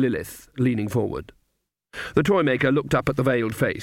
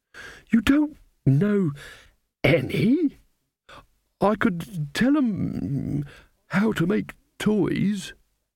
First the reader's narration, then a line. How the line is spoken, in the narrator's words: the old man quavered